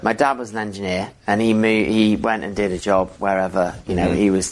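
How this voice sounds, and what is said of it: English accent. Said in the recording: “where does this accent come from? ... So I'm English”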